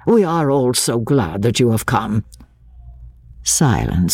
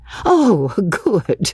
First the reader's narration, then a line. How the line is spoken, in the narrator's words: exclaimed Mr